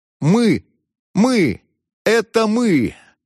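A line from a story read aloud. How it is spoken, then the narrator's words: Forced-out strained words. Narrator (Russian): выдавил, наконец, мсье Пьер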